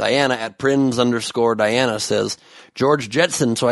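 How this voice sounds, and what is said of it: Usual voice. Nothing is said of it.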